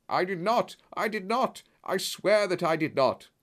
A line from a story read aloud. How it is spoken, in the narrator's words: cried the colonel